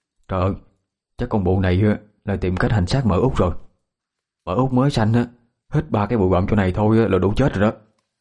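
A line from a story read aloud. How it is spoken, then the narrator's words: Hushed aside. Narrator (Vietnamese): Một người nhỏ giọng với người bên cạnh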